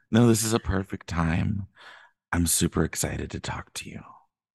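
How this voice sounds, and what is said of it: Calm, sultry sexy voice. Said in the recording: “very calm ... sexy voice”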